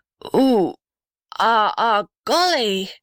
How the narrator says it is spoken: groaned the blue gum in a strange voice

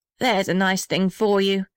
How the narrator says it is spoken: said the little red house bitterly

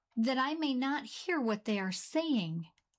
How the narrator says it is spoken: he cried

